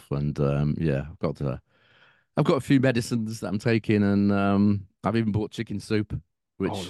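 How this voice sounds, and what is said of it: Gruff, unwell-sounding voice. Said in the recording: “You can probably tell by my voice. It's not that it's ever that clear, but you know, now it's a bit gruff.”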